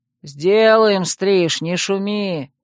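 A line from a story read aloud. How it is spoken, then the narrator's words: Lazy distant reply. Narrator (Russian): лениво отозвался кто-то со стены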